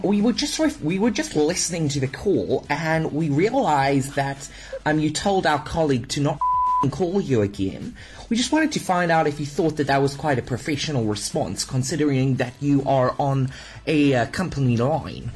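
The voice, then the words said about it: Put-on New Zealand accent. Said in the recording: “That was actually a pretty good accent ... You passed as a New Zealander.”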